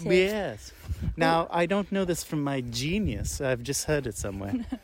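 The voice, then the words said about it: Talking in a funny voice. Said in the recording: “Why are you talking in that funny voice?”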